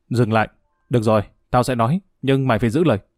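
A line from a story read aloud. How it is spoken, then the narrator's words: Nervous loud shout. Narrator (Vietnamese): Ông Tuấn nuốt nước bọt quát lớn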